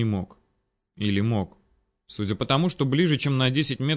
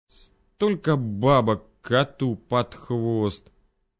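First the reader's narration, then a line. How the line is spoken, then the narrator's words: Strange tone, through teeth. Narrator (Russian): С какой-то непонятной интонацией процедил стоящий рядом Алик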